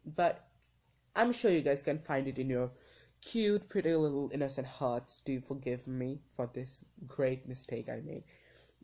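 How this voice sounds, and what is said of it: Hoarse voice. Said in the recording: “my voice is kind of like hoarse right now because I've been like sick for like the last couple days”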